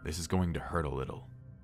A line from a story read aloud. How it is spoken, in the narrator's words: the doctor muttered